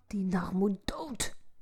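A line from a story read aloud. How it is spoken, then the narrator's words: Soft cursing whisper. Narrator (Dutch): Zachtjes in zichzelf vloekend fluisterde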